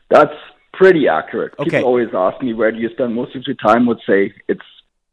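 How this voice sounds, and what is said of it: German accent. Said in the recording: “with the German accent”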